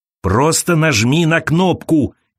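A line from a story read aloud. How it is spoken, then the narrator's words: Shouted. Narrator (Russian): крикнула Элиза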